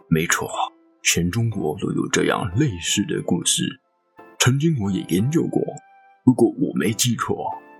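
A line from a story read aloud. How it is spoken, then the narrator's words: Old man, hoarse, low. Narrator (Chinese): 这个老人呢，就声音沙哑、低沉的说道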